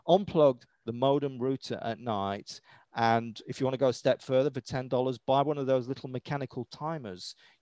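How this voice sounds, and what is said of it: British accent. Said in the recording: “as I say with my British accent”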